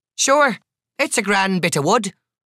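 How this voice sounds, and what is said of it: Heavily laid-on accent. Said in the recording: “really laying on the accent”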